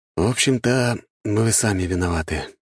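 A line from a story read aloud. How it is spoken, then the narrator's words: Sigh. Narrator (Russian): вздохнул я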